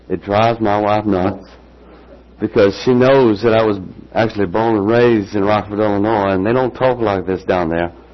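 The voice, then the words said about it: Southern US accent. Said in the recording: “my father was from the South, so every now and then you'll see me drop into this accent ... I will carry a y'all as far as you can see”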